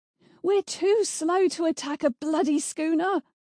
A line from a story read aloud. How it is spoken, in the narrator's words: she yelled